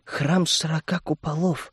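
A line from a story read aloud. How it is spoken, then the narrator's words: Barely audible whisper. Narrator (Russian): едва слышно прошептала девушка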